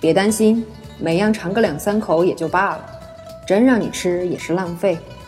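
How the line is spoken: Flat, indifferent. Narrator (Chinese): 柳灵玉只淡淡道

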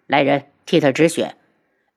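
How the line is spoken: Cold voice. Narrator (Chinese): 轩辕志冷声

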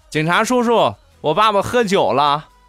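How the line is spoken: Child shouting. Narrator (Chinese): 小家伙立马喊道

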